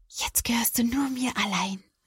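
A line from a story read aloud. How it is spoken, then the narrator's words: Happy smiling whisper. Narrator (German): Caroline lächelt glücklich und flüstert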